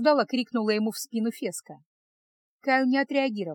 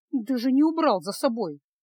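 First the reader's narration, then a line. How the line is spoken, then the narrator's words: Grumbling. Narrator (Russian): проворчала Фесса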